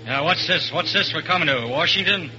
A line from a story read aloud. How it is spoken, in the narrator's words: the fat man shaving in the Pullman washroom grunts